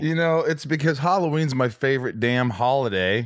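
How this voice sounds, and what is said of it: Usual voice. Nothing is said of it.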